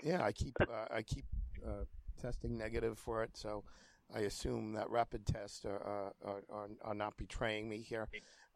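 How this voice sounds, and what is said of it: Sick, under-the-weather voice. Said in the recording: “pardon my voice ... I can tell you are under the weather.”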